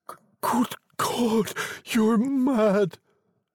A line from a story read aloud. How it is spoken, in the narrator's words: he cried, struck with horror